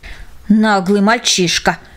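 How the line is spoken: Muttering. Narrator (Russian): пробормотала она

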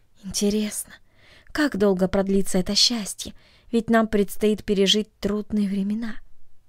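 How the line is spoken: Sighing, asking herself. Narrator (Russian): тайно вздохнула и спросила себя

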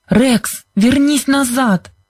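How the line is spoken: Frantic shout. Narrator (Russian): закричала она неистово

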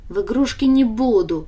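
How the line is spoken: Snorted. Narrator (Russian): фыркнула Даша

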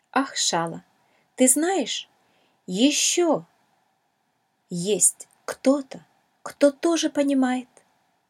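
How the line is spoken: Plain, spoken by a pearl. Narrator (Russian): сказала драгоценная жемчужина

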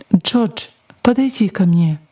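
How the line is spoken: Gentle. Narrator (Russian): доктор мягко сказал

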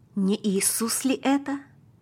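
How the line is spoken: Father whispering. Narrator (Russian): прошептал папа

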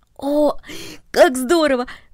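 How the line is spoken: Exclaimed. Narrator (Russian): воскликнул Дино

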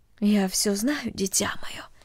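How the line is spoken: Quiet, motherly voice. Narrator (Russian): тихо сказала мать

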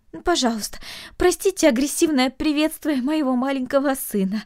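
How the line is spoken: Pleading mother. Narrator (Russian): взмолилась мать

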